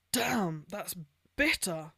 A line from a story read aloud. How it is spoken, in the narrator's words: he sputtered